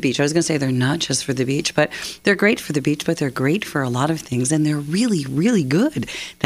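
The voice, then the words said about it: Voice affected by a cold. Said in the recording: “excuse my voice. It is pretty, we've all had colds around here”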